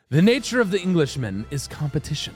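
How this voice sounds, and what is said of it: Put-on English accent. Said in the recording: “Your accent is hilarious. ... He was probably more Cockney.”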